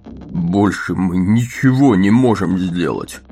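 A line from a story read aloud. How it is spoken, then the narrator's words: Moan. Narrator (Russian): простонал он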